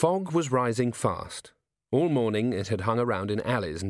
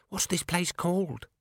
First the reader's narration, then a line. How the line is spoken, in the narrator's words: she whispered